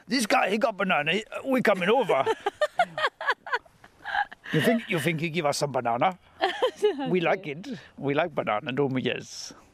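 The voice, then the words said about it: Badly done put-on accent. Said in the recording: “It's a terrible accent.”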